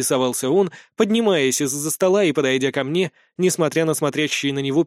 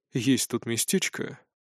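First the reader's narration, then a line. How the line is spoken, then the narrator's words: Smiling. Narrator (Russian): улыбнулся он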